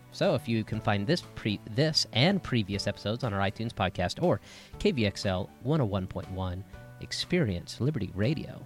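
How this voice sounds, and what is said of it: Calm public radio announcer voice. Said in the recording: “doing your NPR voice ... I'm too calm and chill now”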